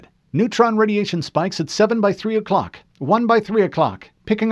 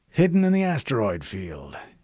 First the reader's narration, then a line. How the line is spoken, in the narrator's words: Admiral Whitcomb muttered